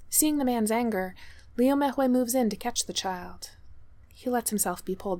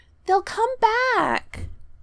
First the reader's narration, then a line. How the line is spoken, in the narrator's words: the child wails